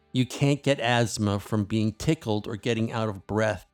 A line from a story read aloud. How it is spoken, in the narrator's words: I said